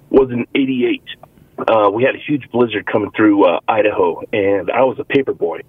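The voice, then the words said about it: Choked-up, emotional voice. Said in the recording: “I get a little choked up, I'm sorry”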